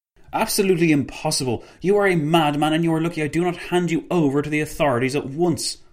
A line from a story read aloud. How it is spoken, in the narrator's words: Paul von Lettow-Vorbeck spat